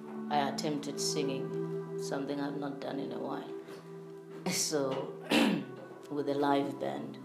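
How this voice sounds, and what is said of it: Deep, strained voice. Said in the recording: “Pardon my voice. ... I know it's deep, but today it sounds a bit deeper. It's strained a bit.”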